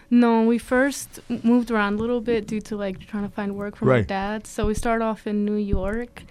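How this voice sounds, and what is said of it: Slight accent. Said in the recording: “you have a little accent when you're talking”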